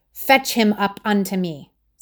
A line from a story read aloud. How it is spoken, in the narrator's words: said Saul angrily